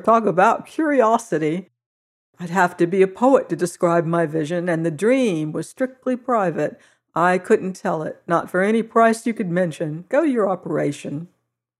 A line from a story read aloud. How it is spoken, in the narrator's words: laughed the harvester